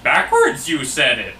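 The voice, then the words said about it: Poor Yoda impression. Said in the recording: “That was a horrible imitation of Yoda's ... Voice. It was terrible. ... you just did exactly the same thing again. ... that was even worse.”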